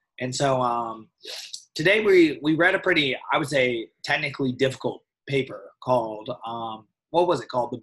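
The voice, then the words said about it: Hoarse, worn-out voice. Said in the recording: “My voice is sort of gone, but I've been lecturing hard this week”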